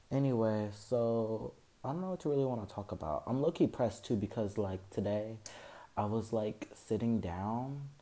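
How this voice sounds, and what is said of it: Slightly raspy voice. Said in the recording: “my voice is a little raspy because I'm honestly nervous”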